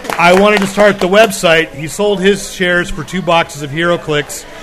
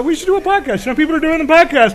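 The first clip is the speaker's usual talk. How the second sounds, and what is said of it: Imitated voice, croaky Kermit-like. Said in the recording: “my really bad impersonation of his voice ... it's actually a pretty good impersonation ... It's actually good ... It's kind of like Kermit after the automobile accident.”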